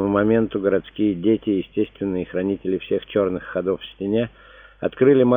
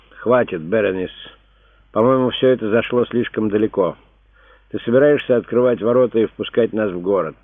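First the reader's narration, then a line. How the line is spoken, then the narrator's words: Deep breaths, then speaking. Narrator (Russian): несколько раз глубоко вздохнул и обратился к жене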